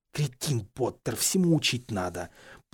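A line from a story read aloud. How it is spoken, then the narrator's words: Grumbling. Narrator (Russian): проворчал он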